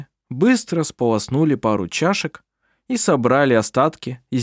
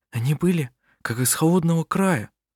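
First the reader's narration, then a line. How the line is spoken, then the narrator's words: Whispered. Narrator (Russian): прошептала Лина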